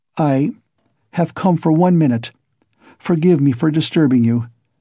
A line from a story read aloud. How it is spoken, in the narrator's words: she began falteringly